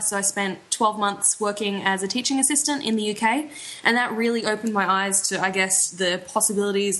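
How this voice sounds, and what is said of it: Australian accent. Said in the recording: “if you can tell by the accent, from over here in Australia”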